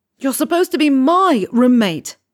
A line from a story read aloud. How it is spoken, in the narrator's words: he scream shouts at Malfoy